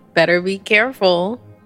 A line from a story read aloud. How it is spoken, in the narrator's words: she chuckled